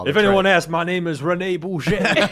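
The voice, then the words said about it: Mixed put-on Cajun, Jamaican-sounding accent. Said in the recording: “I like your Cajun ... sounds a little Jamaican. I like that. A little island flavor in there ... it's also my Scottish ... It's one accent, just an omnibus weird accent.”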